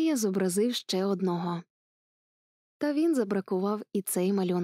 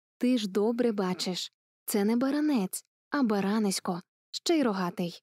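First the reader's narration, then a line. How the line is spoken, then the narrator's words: Gentle indulgent smile. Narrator (Ukrainian): усміхнувся лагідно і поблажливо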